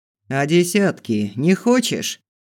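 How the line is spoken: Bearded man's scoff. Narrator (Russian): хмыкнул бородатый

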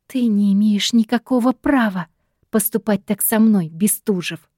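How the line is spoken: Quiet caustic hiss. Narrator (Russian): Зашипела тихо и едко

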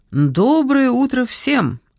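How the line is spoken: Cheerful greeting. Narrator (Russian): радостно поздоровался констебль Глен

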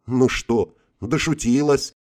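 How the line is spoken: After laughing, inquiring. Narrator (Russian): отсмеявшись, поинтересовался я

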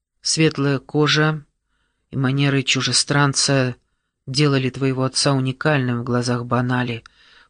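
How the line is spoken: Low voice. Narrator (Russian): вполголоса произнес Коуэ

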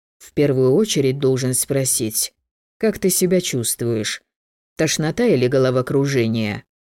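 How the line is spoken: Flat indifferent tone. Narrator (Russian): Некромант не выглядел обеспокоенным и задавал вопросы ровным безразличным тоном

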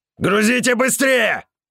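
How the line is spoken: Shouted. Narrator (Russian): крикнул медведь

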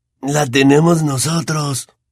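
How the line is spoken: Whispered in ear. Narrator (Spanish): le susurró Fred al oído

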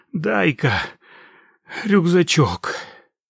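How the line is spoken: Strained, breathing heavily. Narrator (Russian): выдавил он и тяжело задышал

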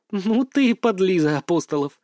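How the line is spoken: Laughing. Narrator (Russian): рассмеялась она

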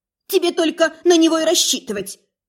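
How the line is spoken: Sudden sharp snap. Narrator (Russian): Неожиданно и резко огрызнулась одна из тувеек

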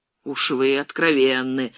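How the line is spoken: Gloomy, irritated. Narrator (Russian): мрачно и с раздражением сказал капитан

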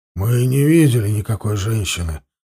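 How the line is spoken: Grumbling mutter. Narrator (Russian): буркнул мохнач

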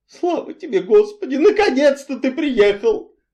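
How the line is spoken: Tragic exclamation. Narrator (Russian): трагически воскликнула она

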